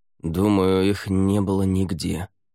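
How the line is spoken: Gloomy male voice. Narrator (Russian): мрачно произнес Лаверн

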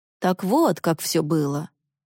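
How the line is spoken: Gloomy. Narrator (Russian): мистер Пеннингтон мрачно произнес

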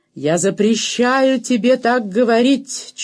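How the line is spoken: Nearly shouting. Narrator (Russian): чуть не крикнул Гуттон

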